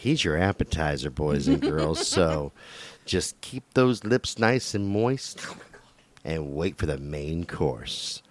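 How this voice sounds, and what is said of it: Dirty old man voice. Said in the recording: “You had that dirty old man voice.”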